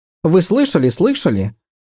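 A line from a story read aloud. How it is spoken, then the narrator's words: Impatient babble. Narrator (Russian): нетерпеливо пролепетала она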